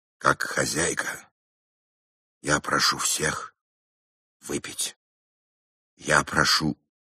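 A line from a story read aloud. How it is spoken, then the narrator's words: Hoarse speech. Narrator (Russian): Шарлотта Генриховна хрипло сказала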